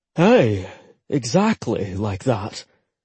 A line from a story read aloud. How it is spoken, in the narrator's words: Rory said with a sigh